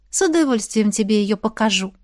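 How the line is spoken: Purring. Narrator (Russian): промурлыкала я

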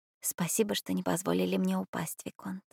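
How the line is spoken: Tender whisper. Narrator (Russian): нежно прошептала она

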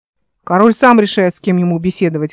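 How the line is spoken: Rude reply. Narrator (Russian): грубо ответил Гренмут

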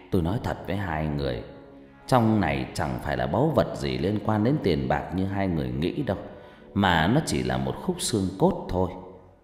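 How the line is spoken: Sighing old man. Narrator (Vietnamese): Ông Cử thở dài rồi lại đáp

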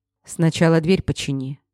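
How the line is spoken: Annoyed mutter. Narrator (Russian): с досадой буркнул я

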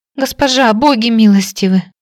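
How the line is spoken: Sobbing young girl. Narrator (Russian): всхлипнула девушка лет 15, маленькая, тоненькая, как тростиночка

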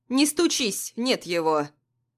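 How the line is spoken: Stern woman's voice. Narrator (Russian): Строго говорит соседка

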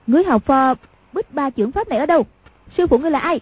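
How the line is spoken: Sharp shout. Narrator (Vietnamese): quát lên

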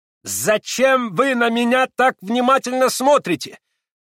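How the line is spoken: Harsh, shrill, threatening shout. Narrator (Russian): прокричал он по-немецки резким пронзительным голосом и с угрожающим видом

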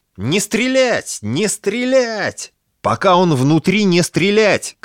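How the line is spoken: Shouting over radio. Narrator (Russian): кричал первый охотник в рацию

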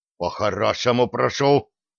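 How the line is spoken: Unnatural exhale. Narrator (Russian): неестественно выдохнул тот

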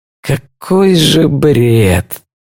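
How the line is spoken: Hoarse croak. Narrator (Russian): прохрипел Финн

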